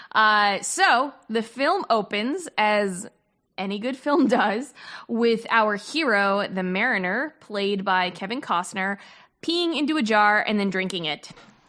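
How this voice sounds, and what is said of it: New Jersey accent. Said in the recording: “I love your Jersey accent. I love when it comes out. ... Well, get ready. It's coming.”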